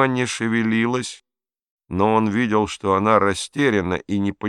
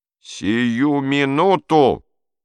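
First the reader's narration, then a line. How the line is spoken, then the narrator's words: Roaring. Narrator (Russian): взревел он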